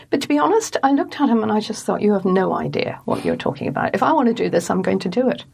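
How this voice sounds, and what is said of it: Northern Irish accent. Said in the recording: “You've got a Northern Ireland accent.”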